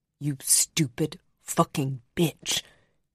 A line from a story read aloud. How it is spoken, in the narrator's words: he hissed